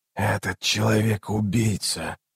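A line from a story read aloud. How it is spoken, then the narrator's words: Hoarse rasp. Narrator (Russian): прохрипел Раллик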